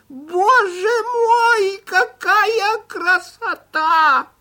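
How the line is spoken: Old man's thin shout. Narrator (Russian): старик закричал тонким голосом

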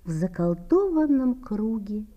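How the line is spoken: Pretty woman's sigh. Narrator (Russian): вздохнула миловидная

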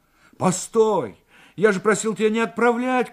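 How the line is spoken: Shout. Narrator (Russian): крикнул Морев

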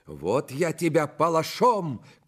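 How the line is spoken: Shouting courier. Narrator (Russian): кричал фельдъегерь

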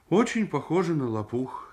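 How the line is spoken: Guilty mumble. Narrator (Russian): виноват пробормотал Митя

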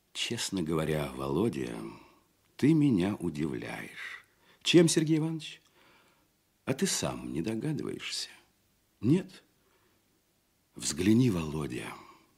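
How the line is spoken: Quiet, concerned. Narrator (Russian): тихо и озабоченно говорил Казачок

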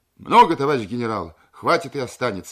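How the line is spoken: Cheerful reply. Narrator (Russian): весело ответил Базжанов

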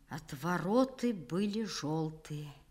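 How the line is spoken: Quiet. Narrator (Russian): сказал он тихо

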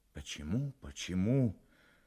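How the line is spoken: Dejected, gloomy. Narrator (Russian): уныло сказал Сорокин

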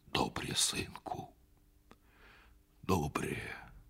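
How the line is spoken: Quiet, old man. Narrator (Russian): сказал тихо Бульба и уставил в землю свою седую голову

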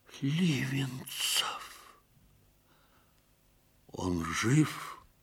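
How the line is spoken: Quiet question. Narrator (Russian): негромко спросил Ковалевский

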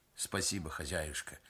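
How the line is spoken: Gentle, affectionate. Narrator (Russian): ласково сказал мастер

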